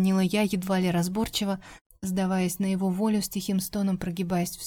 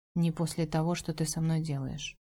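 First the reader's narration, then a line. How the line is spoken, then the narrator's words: Quiet. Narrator (Russian): произнесла негромко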